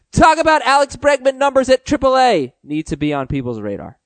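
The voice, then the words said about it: Yelling, reading in all caps. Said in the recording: “He put this in caps, so I am going to yell because I'm going to read it just like he wrote it.”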